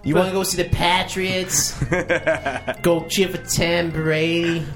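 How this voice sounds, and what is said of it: Put-on Boston accent, unconvincing. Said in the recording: “Is that your Boston accent ... I've known many people from Boston that don't sound like that.”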